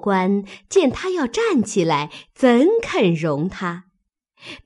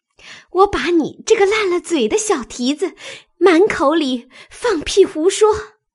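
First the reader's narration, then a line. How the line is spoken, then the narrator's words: Embarrassed, laughing scold. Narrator (Chinese): 香菱听了，红了脸，笑骂道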